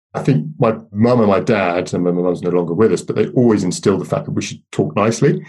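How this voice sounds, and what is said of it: Middle-class English accent. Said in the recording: “a lot of people comment on my, I don't think it's that middle class, but my middle class accent now”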